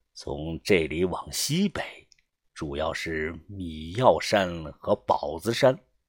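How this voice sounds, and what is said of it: Quiet muttering to oneself. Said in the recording (Chinese): “小声的自言自语的说道”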